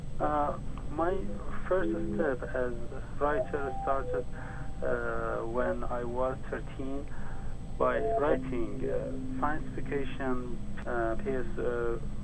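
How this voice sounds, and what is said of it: Noticeable accent in English. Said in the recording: “pardon me for the uh, accent”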